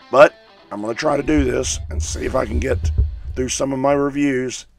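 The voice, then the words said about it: Hoarse, strained sick voice. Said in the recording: “my voice is shot. I've been fighting sinus infection for close to 4 weeks now ... my voice isn't here”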